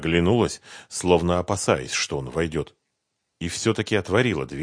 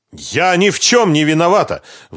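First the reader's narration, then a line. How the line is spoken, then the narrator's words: Shouted out. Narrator (Russian): выкрикнула Лиана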